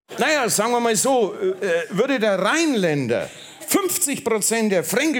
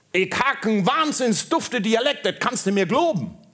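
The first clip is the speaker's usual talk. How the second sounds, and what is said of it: Put-on Berlin dialect. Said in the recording (German): “am 8. Tag erschuf Gott die Dialekte ... Der Berliner sagte”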